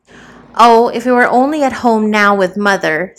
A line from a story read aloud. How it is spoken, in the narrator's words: sighed the younger